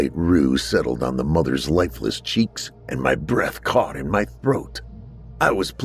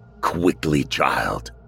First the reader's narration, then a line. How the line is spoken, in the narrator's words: hissed